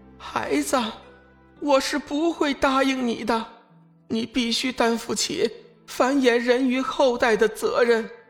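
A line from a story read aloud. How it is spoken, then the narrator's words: Pleading. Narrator (Chinese): 梦露近乎用哀求的语气说道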